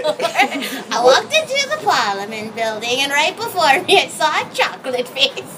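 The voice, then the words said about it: Borat-style comic accent impression. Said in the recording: “Do your Borat impression.”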